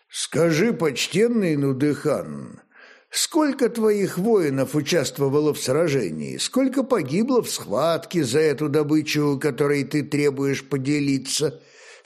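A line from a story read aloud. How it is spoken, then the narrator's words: Calm question, old man. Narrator (Russian): спокойно вопросил старый князь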